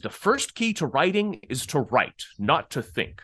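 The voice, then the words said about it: Sean Connery impression. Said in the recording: “a my horrible ... sean yes. connery accent yes very good”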